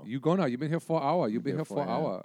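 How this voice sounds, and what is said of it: Exaggerated put-on Chinese accent. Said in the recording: “that Chinese buffet bit ... It's a horribly offensive accent.”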